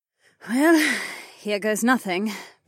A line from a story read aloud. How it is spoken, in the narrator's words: the compy woman sighed